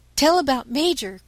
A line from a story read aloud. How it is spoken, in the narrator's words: cried the boys, impatient for the catastrophe